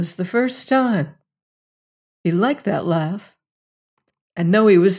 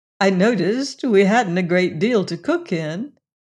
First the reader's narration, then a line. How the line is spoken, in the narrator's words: laughed